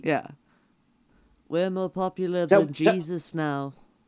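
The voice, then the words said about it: Put-on Liverpool accent. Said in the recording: “I'm impressed with your Liverpool accent”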